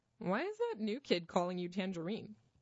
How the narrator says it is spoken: giggled

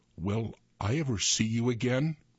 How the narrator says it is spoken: her voice cracked

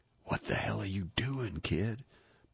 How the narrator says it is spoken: Pastor whispered in a worried-sounding tone

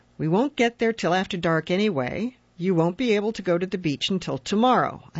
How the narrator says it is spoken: said firmly

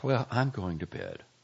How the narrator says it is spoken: Lisa said, sighing

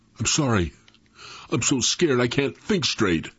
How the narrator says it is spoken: in a shaky voice said

